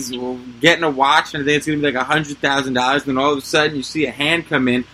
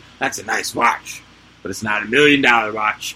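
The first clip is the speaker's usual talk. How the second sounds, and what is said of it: Poor imitation of a wrestler's voice. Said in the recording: “That was a horrible impression of Million Dollar Man”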